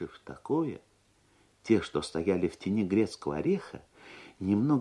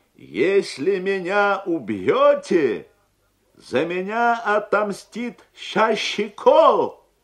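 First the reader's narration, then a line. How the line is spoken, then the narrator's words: Proud shout. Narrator (Russian): гордо крикнул дядя Сандро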